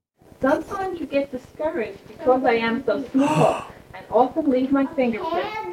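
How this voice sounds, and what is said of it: Grey Gardens-like regional accent. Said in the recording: “my mom's accent ... Do you hear saying small and wall? ... the first thing ... that comes to mind is Grey Gardens ... this is what my whole family sounds”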